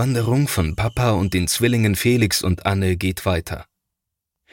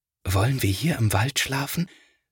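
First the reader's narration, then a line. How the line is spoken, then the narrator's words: Quiet considerate whisper. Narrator (German): flüstert Felix, denn er möchte die Tiere nicht stören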